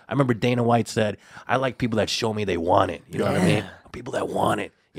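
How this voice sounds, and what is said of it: Imitates another person's voice. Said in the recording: “That was my Dana White impression.”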